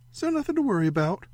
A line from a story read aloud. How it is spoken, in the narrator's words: Ray said brightly